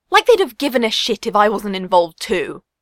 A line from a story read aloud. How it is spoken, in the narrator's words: Ace snapped